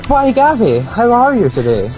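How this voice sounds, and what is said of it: Put-on posh voice. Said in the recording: “put on a rather posh voice”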